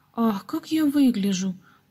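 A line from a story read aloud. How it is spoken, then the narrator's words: Sudden exclamation. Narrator (Russian): Вдруг воскликнула Гизела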